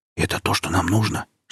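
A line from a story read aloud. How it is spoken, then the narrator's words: Whisper. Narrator (Russian): шепнул Сережа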